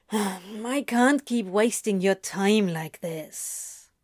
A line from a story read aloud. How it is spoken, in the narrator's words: Crowley sighed